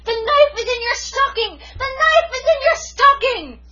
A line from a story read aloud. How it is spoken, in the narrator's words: shrieked at the top of my voice